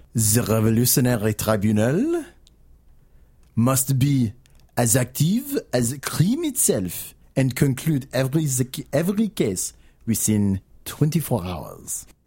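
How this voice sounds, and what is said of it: Put-on comedic French accent. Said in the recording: “I'm going to do my funny French accent.”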